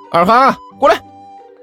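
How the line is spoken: Cheerful loud call. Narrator (Chinese): 甘球笑眯眯地 大声喊道

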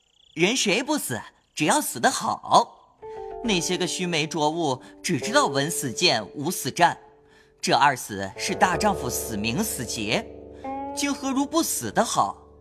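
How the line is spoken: Laughing, animated. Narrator (Chinese): 宝玉谈至浓快时，便笑道

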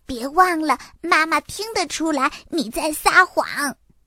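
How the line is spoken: Quiet, low voice. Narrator (Chinese): 多拉在一旁小声地说

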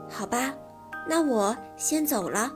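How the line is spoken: Sighing mother. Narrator (Chinese): 妈妈叹了口气说

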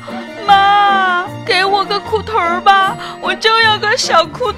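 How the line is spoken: Wailing, crying shout. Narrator (Chinese): 他哇的一声哭了，大喊道

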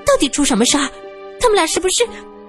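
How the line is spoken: Hurried question. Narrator (Chinese): 苏三急忙问

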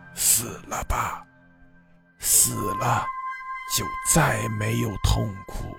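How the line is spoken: Hoarse low voice. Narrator (Chinese): 嘶哑低沉的声音在对他说

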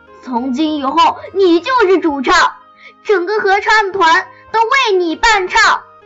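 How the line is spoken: Loud announcement. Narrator (Chinese): 聪聪大声宣布

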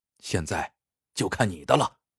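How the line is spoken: Low quiet voice. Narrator (Chinese): 秦不醉灌下第八坛酒后，低声跟饮在口中的小五说

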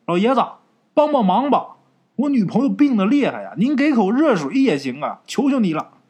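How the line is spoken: Urgent pleading shout. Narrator (Chinese): 李朝宁啊，这时候赶紧喊

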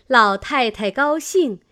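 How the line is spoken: Laughing. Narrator (Chinese): 李纨笑道

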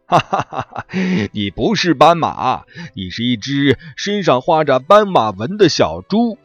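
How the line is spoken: Big laughing elephant. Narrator (Chinese): 大象大笑着说

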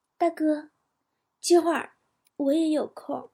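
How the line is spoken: Stunned, quiet. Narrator (Chinese): 女孩懵了，沉默片刻以后，小声说

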